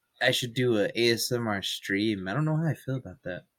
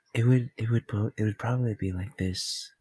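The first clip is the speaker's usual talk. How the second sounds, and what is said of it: Soft ASMR-style whispery voice. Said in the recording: “You do have a good ASMR voice”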